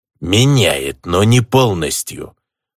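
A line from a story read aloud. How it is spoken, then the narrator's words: Unrelieved goblin grumble. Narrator (Russian): явно не разделяя мое облегчение, проворчал гоблин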